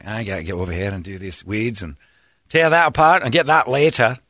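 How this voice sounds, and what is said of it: Put-on Scottish accent. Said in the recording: “I speak to myself in a Scottish accent”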